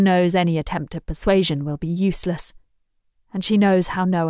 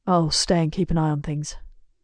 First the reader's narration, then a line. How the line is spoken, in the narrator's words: he mutters